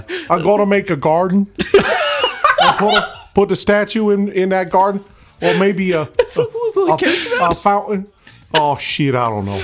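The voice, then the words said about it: Poor imitation of another person's voice. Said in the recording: “impersonating Carl Malone ... His register is much deeper ... that was a terrible impersonation”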